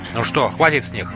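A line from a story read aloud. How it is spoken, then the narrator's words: Plain. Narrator (Russian): спросил Сухмед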